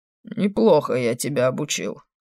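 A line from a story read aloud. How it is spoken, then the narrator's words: Wry grunt. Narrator (Russian): хмыкнул он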